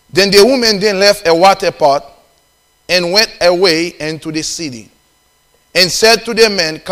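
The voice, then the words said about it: Haitian accent. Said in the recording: “I have Haitian accent ... I have a Haitian accent”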